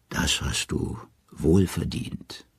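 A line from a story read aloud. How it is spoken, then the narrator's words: Gentle. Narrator (German): sanft sagt sie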